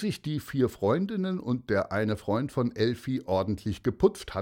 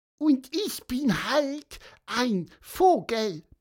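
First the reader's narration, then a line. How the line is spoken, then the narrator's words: Cheerful squeak. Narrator (German): piepste Pieper fröhlich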